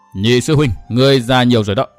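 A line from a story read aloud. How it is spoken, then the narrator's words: Cold woman's voice. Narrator (Vietnamese): Phụ nhân áo xanh nói giọng lạnh lùng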